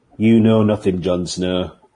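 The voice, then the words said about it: Put-on northern English accent. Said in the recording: “That's a northern accent, by the way, for the non-English people.”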